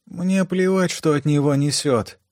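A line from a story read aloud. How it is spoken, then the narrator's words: Sleepy female mutter. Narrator (Russian): сонно пробормотала девушка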